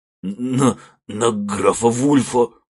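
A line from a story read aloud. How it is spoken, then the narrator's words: Frightened stammer. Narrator (Russian): Заикаясь от испуга, сразу проговорился беглец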